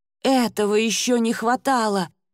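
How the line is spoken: Astonished exclamation. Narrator (Russian): изумленно воскликнула Ада

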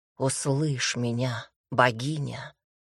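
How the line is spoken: Whisper. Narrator (Russian): прошептала

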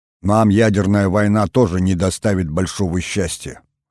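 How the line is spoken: President's wry snort. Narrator (Russian): хмыкнул президент

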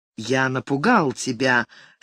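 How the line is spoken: Suddenly hoarse voice. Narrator (Russian): спросил он внезапно осевшим голосом

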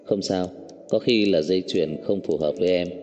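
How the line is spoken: Cold smiling speech. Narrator (Vietnamese): Đáy mắt của Cố Dư Sinh hiện lên một nụ cười lạnh lùng, đứng lên nói

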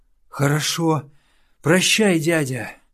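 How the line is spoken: Exhaling with relief. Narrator (Russian): Выдохнул он

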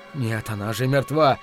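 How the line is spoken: Hoarse whisper. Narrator (Russian): хрипло зашептал он

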